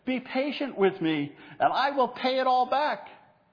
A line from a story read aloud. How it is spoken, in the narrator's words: The fellow servant fell to his knees and begged him